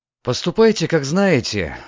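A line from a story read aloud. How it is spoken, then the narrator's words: Sighing. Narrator (Russian): вздохнул Гензел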